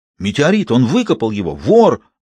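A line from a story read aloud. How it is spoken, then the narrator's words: Exclaiming. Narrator (Russian): воскликнул Гюго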